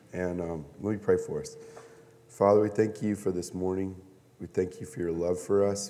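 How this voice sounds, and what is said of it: Unusual, strained-sounding voice. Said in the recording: “be patient with my weird voice this morning”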